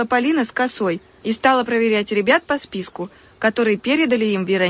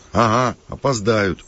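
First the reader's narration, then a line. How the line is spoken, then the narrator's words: Snorting chuckle. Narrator (Russian): хмыкнул Макар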